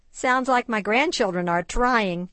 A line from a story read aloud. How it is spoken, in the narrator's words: laughed Sherry's mom